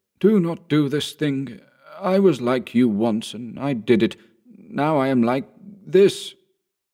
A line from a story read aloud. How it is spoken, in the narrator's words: Old Bug in a mild and cultivated voice said